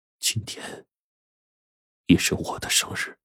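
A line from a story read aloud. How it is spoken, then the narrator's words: Low voice. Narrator (Chinese): 低声说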